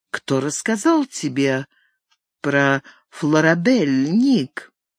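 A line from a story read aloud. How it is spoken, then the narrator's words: Cold, delayed answer. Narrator (Russian): глядя на нее ледяными глазами, ответил, но не сразу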